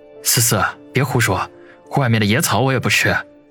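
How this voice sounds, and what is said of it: Speaking quietly, hushed. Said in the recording (Chinese): “紧张的环顾了一下附近，小声的说道”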